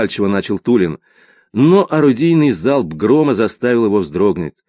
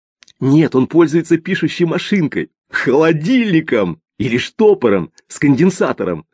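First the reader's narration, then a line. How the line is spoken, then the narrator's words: Two voices laughing, interrupting. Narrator (Russian): Смеясь, оба голоса перебивали друг друга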